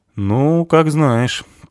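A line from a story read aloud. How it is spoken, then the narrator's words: Thoughtful. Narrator (Russian): Ингвар задумчиво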